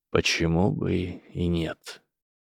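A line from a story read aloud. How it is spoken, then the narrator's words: Quiet. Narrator (Russian): тихо сказал профессор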